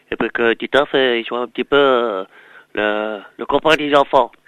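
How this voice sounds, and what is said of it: Cartoon character voice imitation. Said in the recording (French): “j'ai eu droit à une imitation de Titeuf”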